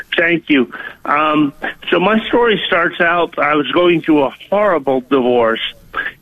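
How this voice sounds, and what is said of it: Minnesota-sounding accent. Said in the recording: “I sound like I'm from Minnesota. But when I've called you in the past, I sound like a Southern guy.”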